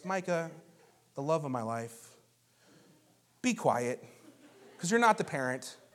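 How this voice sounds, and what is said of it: Put-on good Christian voice. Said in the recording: “in my good Christian voice,”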